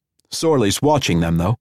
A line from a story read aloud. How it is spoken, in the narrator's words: Cazalet said in a harsh tone